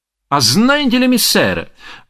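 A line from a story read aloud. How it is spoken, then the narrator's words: Merry exclamation. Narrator (Russian): воскликнул Никола среди спора с искрой веселости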